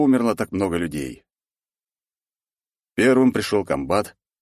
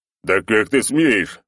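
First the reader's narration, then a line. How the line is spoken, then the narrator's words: Roar. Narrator (Russian): взревел Косолапый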